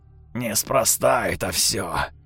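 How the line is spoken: Creaky voice. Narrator (Russian): скрипучим голосом сказал мой сосед

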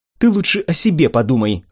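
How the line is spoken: Snapping retort. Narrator (Russian): огрызнулась Сата

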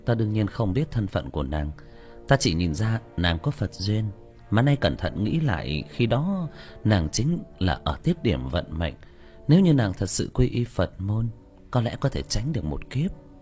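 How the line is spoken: Sighing. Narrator (Vietnamese): Tĩnh Tuệ Sư Thái thở dài

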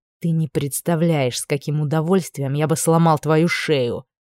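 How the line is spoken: Restrained through teeth. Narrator (Russian): процедил сквозь зубы, сдерживая себя неимоверным усилием

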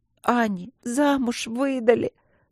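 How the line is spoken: Loud sobbing. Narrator (Russian): громко зарыдала Каролинка

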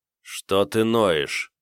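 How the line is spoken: Irritated, through teeth. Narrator (Russian): процедил раздраженно

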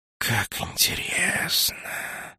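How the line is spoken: Thoughtful hiss. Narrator (Russian): задумчиво прошипел Нак

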